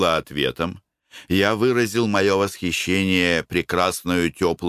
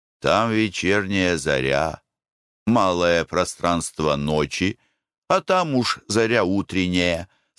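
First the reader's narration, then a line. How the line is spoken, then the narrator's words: Plain. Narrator (Russian): сказал мой друг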